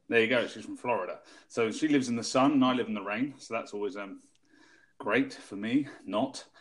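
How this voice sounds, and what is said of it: British accent. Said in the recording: “as you can tell from my voices, I am from the UK”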